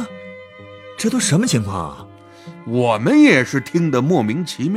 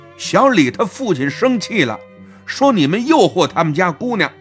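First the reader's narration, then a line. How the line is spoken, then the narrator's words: Stern shout. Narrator (Chinese): 特别严肃地跟我们吼了一句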